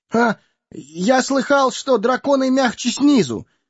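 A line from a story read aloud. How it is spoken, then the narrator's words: Frightened squeak. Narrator (Russian): испуганно пискнул Бильбо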